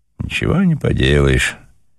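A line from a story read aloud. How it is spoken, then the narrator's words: Sighing man. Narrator (Russian): вздохнул мужчина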